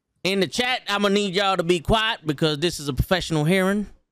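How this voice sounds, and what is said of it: Put-on accent, judge role. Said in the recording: “accent sounds great right now... Fantastic.”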